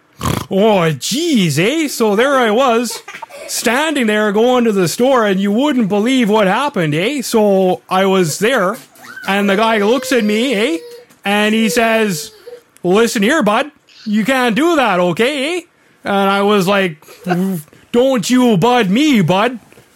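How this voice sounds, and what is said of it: Exaggerated Canadian accent. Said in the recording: “a hardcore hoser accent”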